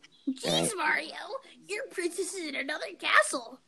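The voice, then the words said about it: Toad cartoon character voice. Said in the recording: “That was my Toad impression.”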